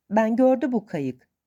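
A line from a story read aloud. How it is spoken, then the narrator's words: Plain. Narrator (Turkish): dedi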